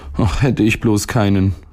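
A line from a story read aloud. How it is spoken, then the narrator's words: Boy sighing. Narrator (German): seufzte der Junge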